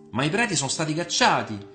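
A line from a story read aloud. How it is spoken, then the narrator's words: Defiant tone. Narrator (Italian): disse con tono di sfida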